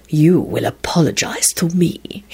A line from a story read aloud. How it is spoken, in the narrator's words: snarled in a deadly tone